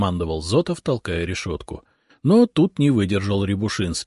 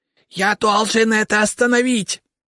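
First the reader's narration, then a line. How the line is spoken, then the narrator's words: Desperate ghostly cry. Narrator (Russian): в отчаянии выкрикнул призрак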